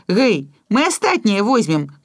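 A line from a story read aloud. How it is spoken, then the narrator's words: Shouting. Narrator (Belarusian): крыкнуў я Жору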